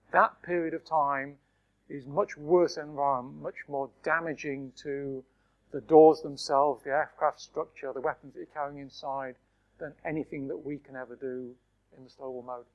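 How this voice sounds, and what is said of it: Hoarse, strained voice. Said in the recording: “is getting a bit hoarse”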